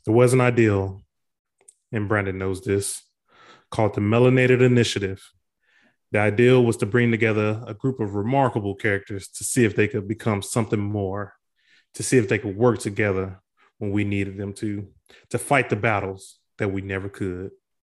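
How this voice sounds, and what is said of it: Tulsa, Oklahoma regional American accent. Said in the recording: “Outside of the Tulsa accent where you say ideal instead of idea ... I told y'all I have an accent.”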